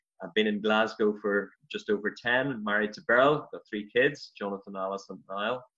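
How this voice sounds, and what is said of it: Northern Irish accent. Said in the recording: “as you probably picked up from the accent, I'm from Ireland originally, um, Northern Ireland”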